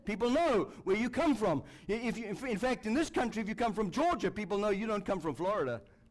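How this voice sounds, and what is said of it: Speaks with a noticeable accent. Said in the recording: “Now, I know all about accent. ... It's very hard to get rid of an accent, isn't it? It's not that I'm trying very hard.”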